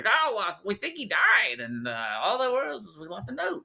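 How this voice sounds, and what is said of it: Imitates another person's voice. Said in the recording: “that's a very interesting accent. ... Oh, well, that's impression. My, yeah, that's my Kurt Wood.”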